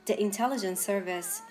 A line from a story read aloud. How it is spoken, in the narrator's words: Chia breathed